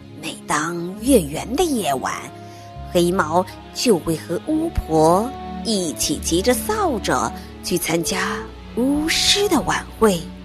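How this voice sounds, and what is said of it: Mysterious hushed whisper. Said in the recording (Chinese): “神秘的小声说”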